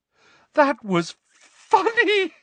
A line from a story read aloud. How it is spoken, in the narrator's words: eyes swam with tears as she gasped for breath